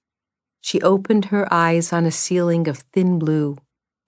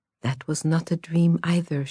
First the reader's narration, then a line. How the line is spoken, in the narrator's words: she murmured